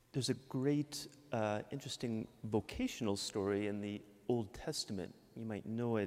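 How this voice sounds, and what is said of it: Midwestern American accent. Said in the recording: “I'm from Michigan. I can't hide my Midwestern accent.”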